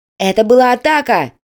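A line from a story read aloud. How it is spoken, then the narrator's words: Shouted. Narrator (Russian): крикнул другой оператор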